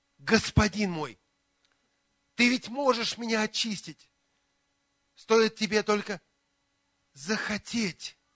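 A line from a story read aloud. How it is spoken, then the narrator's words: Pleading. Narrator (Russian): он взмолился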